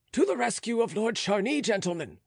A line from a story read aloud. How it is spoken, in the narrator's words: shouted the sentry